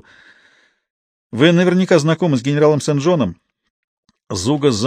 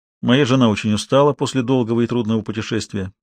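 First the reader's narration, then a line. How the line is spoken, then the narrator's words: Even voice. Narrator (Russian): ровным голосом отозвался Зуга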